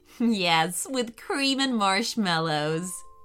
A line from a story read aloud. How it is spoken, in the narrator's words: giggled Riley